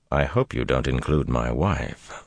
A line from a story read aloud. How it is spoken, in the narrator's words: Lan said coldly